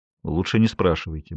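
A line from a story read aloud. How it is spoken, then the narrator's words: Boss's gruff mutter. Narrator (Russian): буркнул босс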